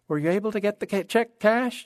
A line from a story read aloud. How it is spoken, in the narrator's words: inquired brightly